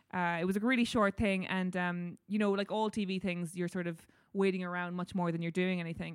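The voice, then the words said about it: Irish accent. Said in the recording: “We all love your accent ... your accent is Irish”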